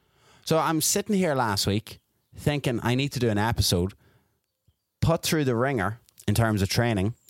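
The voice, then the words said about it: Irish Dundalk accent. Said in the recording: “you listeners have an appreciation for a Dundalk accent”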